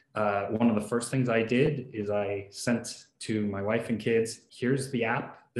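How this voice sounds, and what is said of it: Non-British accent. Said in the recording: “as you can tell from the accent, I'm not actually from the UK.”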